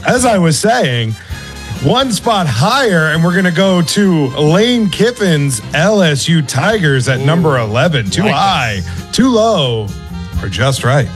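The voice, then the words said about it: Announcer voice. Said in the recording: “Why are you doing it ... Like that? ... Because you told me to do announcer voice.”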